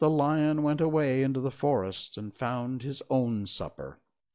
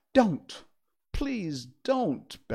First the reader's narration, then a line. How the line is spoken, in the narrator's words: begged the Tin Woodman